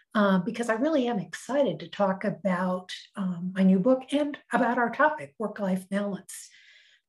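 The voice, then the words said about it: Hoarse, froggy voice. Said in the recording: “you can hear, I have a frog in my throat today”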